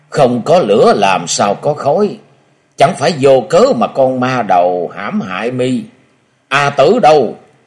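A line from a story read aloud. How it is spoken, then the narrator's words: Harsh sudden voice. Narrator (Vietnamese): tiếng nói gắt gỏng bàn nãy bỗng vang lên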